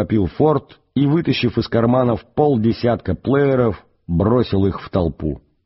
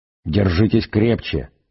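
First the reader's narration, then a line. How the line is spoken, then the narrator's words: Quiet. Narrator (Russian): тихо произнес Форд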